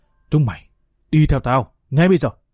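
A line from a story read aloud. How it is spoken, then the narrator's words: Hissed through teeth. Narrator (Vietnamese): Hùng trừng mắt, giọng rít qua kẽ răng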